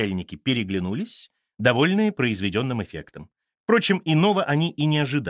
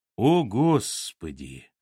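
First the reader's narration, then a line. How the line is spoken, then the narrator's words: Mumbled. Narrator (Russian): пробормотала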